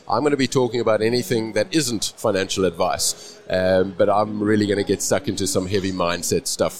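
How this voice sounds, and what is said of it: Non-local accent. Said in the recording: “you and I both have different accents.”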